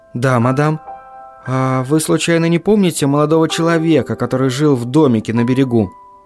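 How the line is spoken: Barely audible whisper. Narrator (Russian): чуть слышно прошептала она

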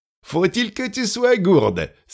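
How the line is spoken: Commander exclaiming. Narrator (French): s'exclama le commandant Michel

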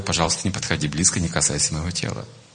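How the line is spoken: Gentle. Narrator (Russian): Будда мягко сказал ей

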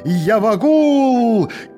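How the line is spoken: Shouting. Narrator (Russian): кричал я собакам

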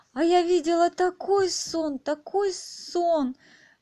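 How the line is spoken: Delighted exclamation. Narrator (Russian): восторженно воскликнула Алиса

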